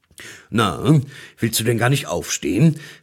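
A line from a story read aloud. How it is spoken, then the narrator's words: Deep-voiced question. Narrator (German): fragte der Weihnachtsmann mit tiefer Stimme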